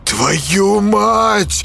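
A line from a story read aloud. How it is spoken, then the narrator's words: Hissed curse. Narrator (Russian): прошипел Юрка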